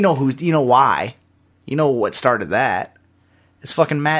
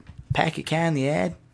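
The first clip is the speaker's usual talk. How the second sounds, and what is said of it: Put-on Boston accent. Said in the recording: “even Boston ... it's a Southy accent”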